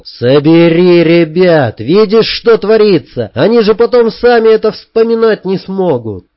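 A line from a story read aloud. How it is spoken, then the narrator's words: Shouted. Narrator (Russian): Я прокричал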